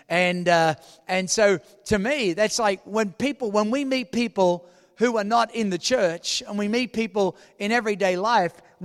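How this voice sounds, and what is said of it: Speaks with a non-local accent. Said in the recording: “I don't hear my accent. I hear yours. ... people at the table next to us go, where are you from? Because they heard my accent.”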